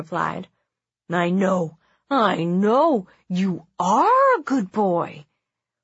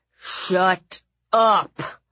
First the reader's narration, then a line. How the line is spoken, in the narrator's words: growled